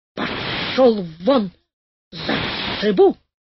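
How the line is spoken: Cat hissing and yelling loudly. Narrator (Russian): Кот зашипел еще громче, закричал на своем кошачьем языке

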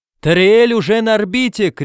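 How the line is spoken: Shouted. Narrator (Russian): крикнул он

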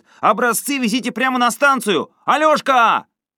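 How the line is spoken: Shouting after them. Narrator (Russian): парень в белых трусиках крикнул им вслед

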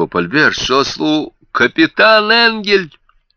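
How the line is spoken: Shouted. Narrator (Russian): закричал Альберт

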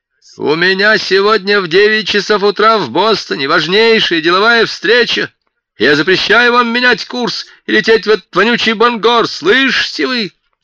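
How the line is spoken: Man yelling angrily. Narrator (Russian): заорал круглый ворот

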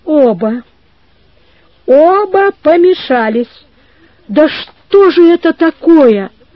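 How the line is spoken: Tearful shout. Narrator (Russian): крикнула плачущим голосом

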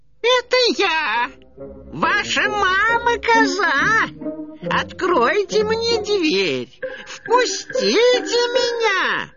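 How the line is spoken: Wolf's thin high voice. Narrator (Russian): тонким голосом проговорил волк

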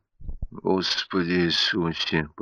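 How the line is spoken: Mutter. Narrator (Russian): пробормотал он

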